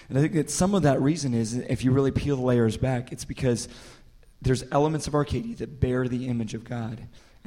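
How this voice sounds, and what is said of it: Hoarse, strained, nearly lost voice. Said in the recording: “I'm sorry you lost your voice here ... I didn't know I was going to be interviewed by Diane Rehm today.”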